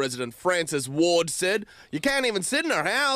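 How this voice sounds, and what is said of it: Usual voice. Nothing is said of it.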